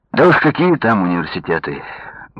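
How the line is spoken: Bitter sigh. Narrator (Russian): горько вздохнул Павел

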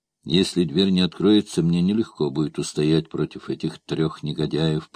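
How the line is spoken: Whispering. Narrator (Russian): прошептал он

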